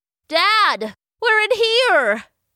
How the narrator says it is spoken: he shouted

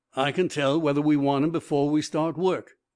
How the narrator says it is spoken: grunted the foreman

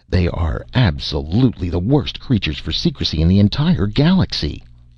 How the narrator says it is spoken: exclaimed Darquelnoy in irritation

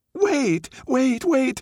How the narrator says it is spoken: cried the fox

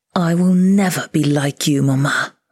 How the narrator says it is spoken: I snarled

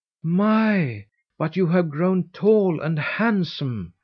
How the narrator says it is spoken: she exclaimed

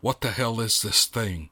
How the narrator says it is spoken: he muttered, in disbelief

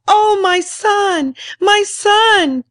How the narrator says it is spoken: sobbed

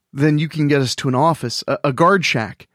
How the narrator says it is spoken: Bryce stammered

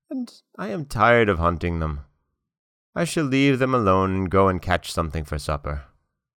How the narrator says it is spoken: he said sadly to the old man

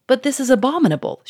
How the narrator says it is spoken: she cried

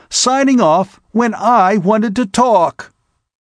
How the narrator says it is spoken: he exclaimed

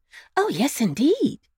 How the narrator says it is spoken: exclaimed Nurse Jane

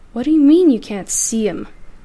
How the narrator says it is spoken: the captain scoffed

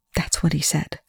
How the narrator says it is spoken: Chloe whispered

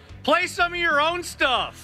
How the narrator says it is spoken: And I just yelled

